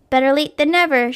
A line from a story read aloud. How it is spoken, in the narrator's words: she shouted